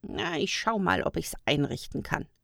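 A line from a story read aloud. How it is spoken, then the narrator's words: Amused grumble. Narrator (German): brummte er und musste schmunzeln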